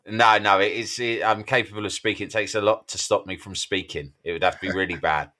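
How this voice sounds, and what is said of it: Slightly hoarse, sore-throated voice. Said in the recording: “I've got a bit of a sore throat ... Yeah, I hear it.”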